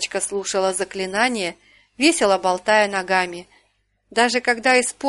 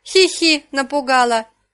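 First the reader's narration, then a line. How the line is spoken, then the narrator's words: Laughing. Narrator (Russian): рассмеялась Карина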